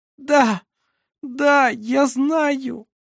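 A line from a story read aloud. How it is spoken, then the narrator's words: Exhausted moan. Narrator (Russian): простонала Шира на пределе своих сил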